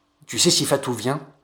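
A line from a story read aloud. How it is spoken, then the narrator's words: Muttering. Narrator (French): a-t-il marmonné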